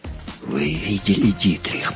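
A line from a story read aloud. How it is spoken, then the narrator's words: Mumbling while sobbing. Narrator (Russian): пробормотал он, всхлипывая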